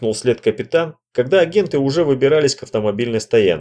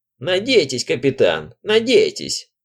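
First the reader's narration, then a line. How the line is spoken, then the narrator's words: Old woman's creaky voice. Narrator (Russian): проскрипела старуха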